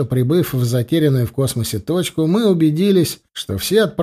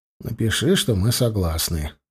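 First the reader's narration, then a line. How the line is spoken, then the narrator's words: Sighing. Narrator (Russian): вздохнул я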